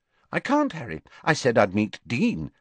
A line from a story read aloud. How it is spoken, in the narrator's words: said Ginny brightly